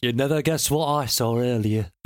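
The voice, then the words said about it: Put-on northern English accent. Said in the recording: “Or anything that's like northern... Northern?... Where am I from? Bolton. Am I from Bolton?”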